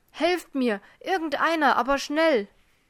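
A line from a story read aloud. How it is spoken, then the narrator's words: Male calling out. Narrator (German): rief er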